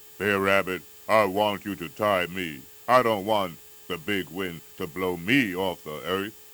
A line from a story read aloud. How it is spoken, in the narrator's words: Bear Tiger roared out